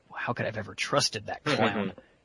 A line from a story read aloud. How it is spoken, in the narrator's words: he whispers to Mercy